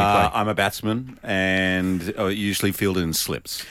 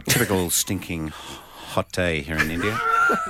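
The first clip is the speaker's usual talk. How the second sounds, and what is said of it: Impression of a cricket commentator. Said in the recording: “impressions of the late, great cricket commentator, Richie Benno ... I have most of my impersonations are from Billy Birmingham ... doing Richie Benno impressions”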